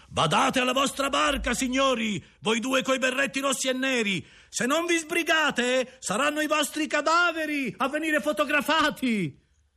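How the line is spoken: Booming yell. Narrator (Italian): una voce stentorea alle nostre spalle urlò

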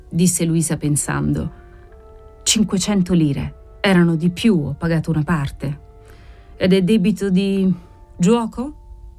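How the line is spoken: Said coldly. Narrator (Italian): disse ella freddamente

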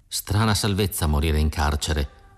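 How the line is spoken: Quiet undertone. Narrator (Italian): disse sottovoce

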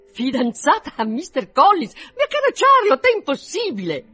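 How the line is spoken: Astonished exclamation. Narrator (Italian): Tale fu dunque il suo stupore da superare a tutta prima i limiti della convenienza, così che non poté trattenersi dall'esclamare

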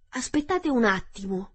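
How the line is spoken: Scarecrow exclaiming. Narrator (Italian): esclamò lo spaventapasseri

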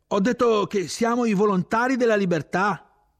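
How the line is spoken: Shouted. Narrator (Italian): io gridai

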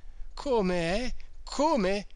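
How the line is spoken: Almost disdainful reply. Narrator (Italian): rispose con voce quasi sdegnosa Don Abbondio, il quale, dopo un così gran sacrificio, si sentiva in certo modo divenuto creditore

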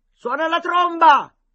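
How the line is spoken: Shouting. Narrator (Italian): gridò Boca

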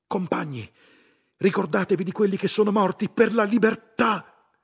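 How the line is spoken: Shout breaking silence. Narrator (Italian): qualcuno gridò

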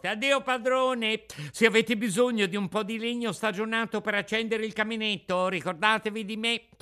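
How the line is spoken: Laughing, shouting louder. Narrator (Italian): rideva e seguitava a nuotare e dopo un poco, rivoltandosi indietro, urlava più forte

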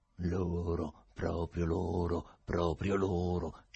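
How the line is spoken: Goat-like singsong voice. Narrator (Italian): canticchiò il lungo personaggio a quadretti con voce da caprone

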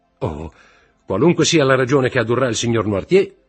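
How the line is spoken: Shouted. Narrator (Italian): gridò Morrel

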